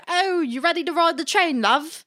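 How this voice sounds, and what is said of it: Deliberately poor put-on British accent. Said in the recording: “talk in a British accent all day, but like a poor British accent”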